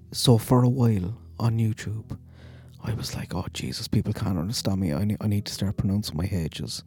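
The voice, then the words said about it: Thick accent, dropped H's. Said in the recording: “The accent that you're hearing now is my real accent. ... I know I have a thick accent ... pronounce my H's”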